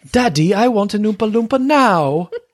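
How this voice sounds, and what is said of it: Bratty Veruca Salt voice. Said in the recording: “Tammy pulls a Veruca Salt from Charlie and the Chocolate Factory ... Do the voice. ... Oh, that was way better. Yeah, a very Veruca Salt moment”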